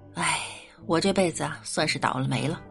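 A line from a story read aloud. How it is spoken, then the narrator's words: Unhappy sigh. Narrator (Chinese): 老妈不高兴，叹气说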